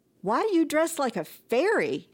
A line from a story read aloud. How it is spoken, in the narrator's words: yelped LaWanda Carraway, the girlfriend